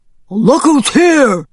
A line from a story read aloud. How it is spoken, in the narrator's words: barked